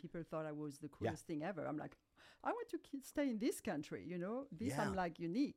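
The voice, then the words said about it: French accent. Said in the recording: “I'm trying to hide my accents, but I don't think I'm that successful at it ... you can't hide that accent ... speaking with my French accent”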